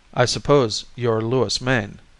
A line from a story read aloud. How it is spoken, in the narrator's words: he asked